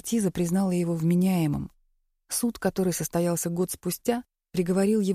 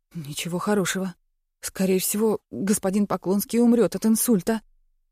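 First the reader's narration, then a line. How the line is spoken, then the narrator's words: Frightened answer. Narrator (Russian): Инженер испуганно отвечает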